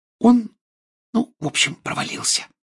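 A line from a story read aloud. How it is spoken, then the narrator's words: Whispered. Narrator (Russian): прошептала Гермиона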